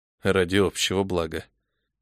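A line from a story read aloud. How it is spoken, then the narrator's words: Quiet repetition. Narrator (Russian): тихо повторил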